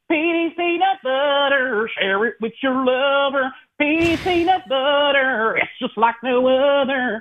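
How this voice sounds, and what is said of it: Country-style singing in an accent. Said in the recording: “country with your ... Accent.”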